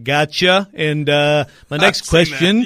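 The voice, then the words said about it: Impression of John Glennon. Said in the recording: “great Glennon impression”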